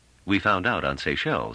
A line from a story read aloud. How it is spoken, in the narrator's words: said Trevise dryly